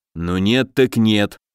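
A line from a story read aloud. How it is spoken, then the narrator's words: Grumbling. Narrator (Russian): проворчал Добрыня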